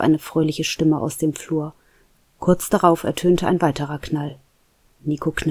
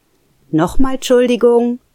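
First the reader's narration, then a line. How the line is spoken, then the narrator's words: Calling out. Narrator (German): rief die Stimme erneut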